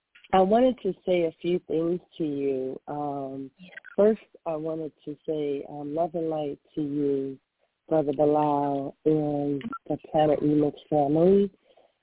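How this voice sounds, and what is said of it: Congested, slightly altered voice. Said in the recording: “Excuse my voice. I have like a sinus infection, so excuse me if I sound a little different.”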